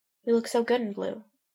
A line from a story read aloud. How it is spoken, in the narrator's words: She mumbles